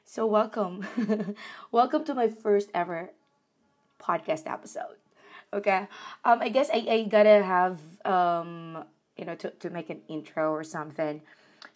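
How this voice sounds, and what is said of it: Sick-sounding, affected voice. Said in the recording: “Sorry about my voice. Just recovering from flu.”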